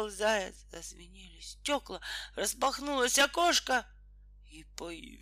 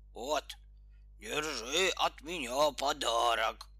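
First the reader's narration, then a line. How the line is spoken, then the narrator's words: Growling bear. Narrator (Russian): прорычал медведь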